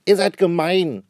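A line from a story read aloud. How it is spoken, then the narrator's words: Shouting. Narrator (German): schreit Susanne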